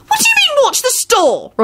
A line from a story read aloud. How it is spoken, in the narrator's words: Rosie wailed